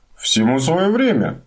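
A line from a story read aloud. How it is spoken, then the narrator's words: Cheerful. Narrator (Russian): бодро ответил Хемуль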